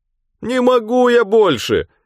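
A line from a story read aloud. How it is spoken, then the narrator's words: Whining. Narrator (Russian): заскулил Белобрысый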